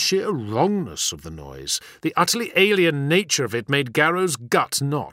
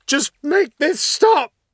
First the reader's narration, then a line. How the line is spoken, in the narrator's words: Then there was the scream